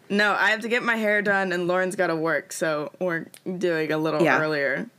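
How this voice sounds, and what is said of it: Groggy morning voice. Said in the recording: “my voice sounds funny ... this might still sound like my morning voice ... I don't want to sound sick”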